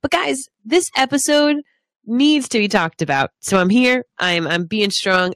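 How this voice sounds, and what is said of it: Stuffy, congested voice. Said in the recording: “I have the flu, which is why I sound a little stuffy.”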